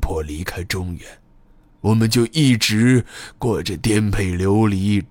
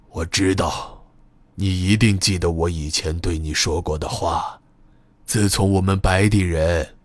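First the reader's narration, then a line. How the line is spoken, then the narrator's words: Old man, steady, forceful. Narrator (Chinese): 柏树老爷声音沉稳而有力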